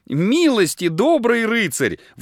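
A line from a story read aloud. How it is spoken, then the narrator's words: Pleading. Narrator (Russian): взмолилась Люд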